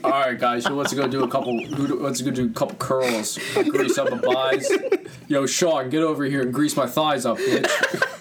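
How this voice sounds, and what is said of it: Impression of Gabe Kapler. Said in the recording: “Gabe Kapler ... did you see the way those guys impersonated me?”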